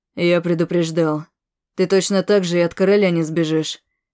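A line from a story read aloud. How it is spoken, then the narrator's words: Plain. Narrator (Russian): сказал Алекс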